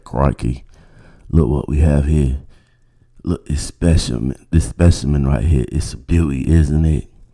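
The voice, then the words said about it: Crocodile Hunter impression. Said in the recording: “I used to do this Crocodile Hunter impersonation”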